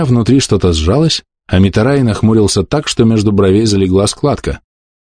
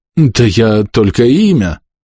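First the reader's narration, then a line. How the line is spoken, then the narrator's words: Strained, forced out. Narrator (Russian): выдавил он из себя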